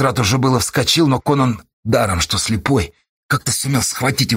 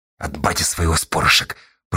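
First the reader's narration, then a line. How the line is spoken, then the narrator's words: Hissed. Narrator (Russian): прошипел Калистрат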